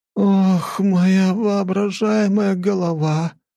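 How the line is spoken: Hoarse wheeze. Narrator (Russian): прохрипела Лора

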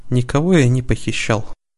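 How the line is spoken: Tired. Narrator (Russian): устало сказал герцог

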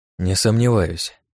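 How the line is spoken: Muttered. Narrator (Russian): буркнул я

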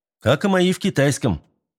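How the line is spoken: Replied in matching tone, laughing. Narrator (Russian): В тон ему ответил я, и мы засмеялись уже вдвоем

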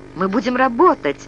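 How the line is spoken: Pleading. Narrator (Russian): взмолилась Алина

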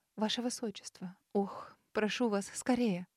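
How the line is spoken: Blurted pleadingly. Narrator (Russian): выпалила дама, умоляюще

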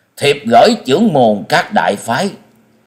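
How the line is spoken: Grave loud proclamation. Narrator (Vietnamese): Ngọc Hư đạo trưởng sắc mặt trầm ngưng, cao giọng tuyên đọc

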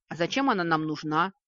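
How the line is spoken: Snort. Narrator (Russian): фыркнула левая

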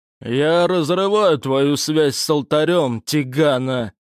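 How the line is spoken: Growling. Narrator (Russian): прорычал круглолицый

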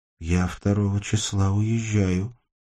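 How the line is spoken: Thin plaintive voice. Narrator (Russian): сказала Сашка и сама поразилась, как тонко и жалобно прозвучал ее голос

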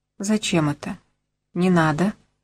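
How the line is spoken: Quiet. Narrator (Russian): тихо сказала

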